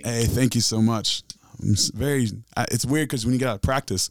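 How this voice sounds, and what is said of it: Raspy, scratchy voice. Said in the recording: “my voice is raspy today ... struggling, like, man, whew, like scratchy McScratch”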